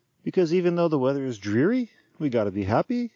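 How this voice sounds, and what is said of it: Put-on Irish lilt, rising intonation. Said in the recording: “I'm talking in my Irish lilt. Everything's got to have an up at the end when you're talking in Irish style ... I'm not that great at accents”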